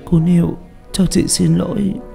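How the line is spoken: Crying. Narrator (Vietnamese): Uyên khóc lóc

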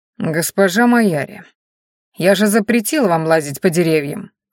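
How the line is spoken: Cold reminder. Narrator (Russian): холодно напомнил оборотень

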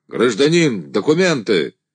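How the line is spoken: Angry shout. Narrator (Russian): человек, несущий фонарь, сердито крикнул

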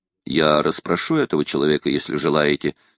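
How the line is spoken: Plain. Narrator (Russian): сказал Квентин

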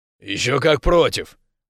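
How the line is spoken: Growl. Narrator (Russian): Рос прорычал

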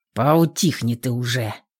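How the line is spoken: Growled. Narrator (Russian): рыкнул на него

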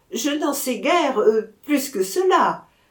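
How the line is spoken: Laughing reply. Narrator (French): répondit en riant

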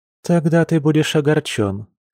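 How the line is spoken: Woman, after deep sigh. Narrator (Russian): глубоко вздохнув, произнесла женщина

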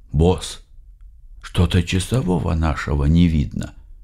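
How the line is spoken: Whisper. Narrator (Russian): я прошептал

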